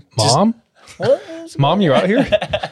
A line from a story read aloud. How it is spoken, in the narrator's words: kind of laughs to himself